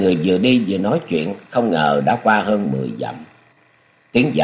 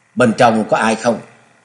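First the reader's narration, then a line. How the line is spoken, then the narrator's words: Loud calling question. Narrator (Vietnamese): Nhạc Tiểu Long cất cao giọng hỏi vọng vào trong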